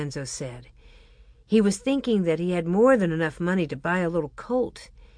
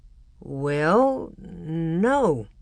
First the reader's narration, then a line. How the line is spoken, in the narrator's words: Father answered slowly